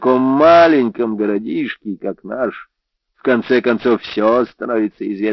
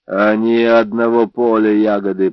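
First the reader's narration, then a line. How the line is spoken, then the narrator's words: Muttered. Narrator (Russian): пробурчал Бэфилд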